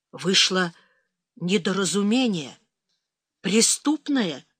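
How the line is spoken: Awkward, strained words. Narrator (Russian): неуклюже выдавил он

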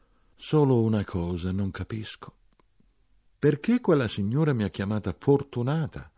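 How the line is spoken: Very quiet remark. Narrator (Italian): Mia madre molto piano osservò

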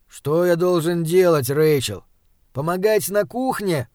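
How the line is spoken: Displeased grumble. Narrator (Russian): пробурчал он недовольно

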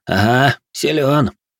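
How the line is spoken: Amused grunt. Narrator (Russian): Канс хмыкнул

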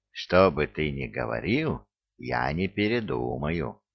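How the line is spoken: Soft objection. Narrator (Russian): мягко возразил Элвин

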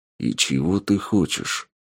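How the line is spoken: Through gritted teeth. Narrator (Russian): Процедил сквозь зубы Тапок

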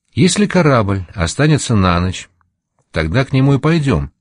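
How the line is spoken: Plain. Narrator (Russian): сказал Гвоздарь

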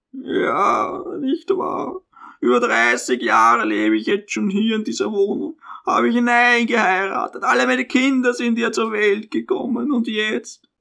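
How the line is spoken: Deep sigh, trailing off. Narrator (German): seufzte tief auf, ohne den Satz zu vollenden

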